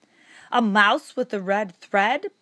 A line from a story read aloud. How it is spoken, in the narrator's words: boomed the voice